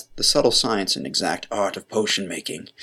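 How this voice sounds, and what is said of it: Snape character voice. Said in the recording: “Sorry, I just changed there. I'm trying to get in my Snape voice.”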